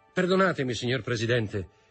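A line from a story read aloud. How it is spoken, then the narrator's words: Firm voice. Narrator (Italian): disse con voce ferma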